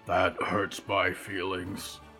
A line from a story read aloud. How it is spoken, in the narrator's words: Mort grumbled